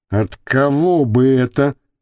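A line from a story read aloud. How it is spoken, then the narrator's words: Grumbling. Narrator (Russian): проворчал журналист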